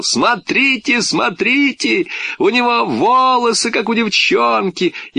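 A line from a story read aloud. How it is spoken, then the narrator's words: Loud, insolent laughter. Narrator (Russian): громко, нахально так засмеялся, захохотал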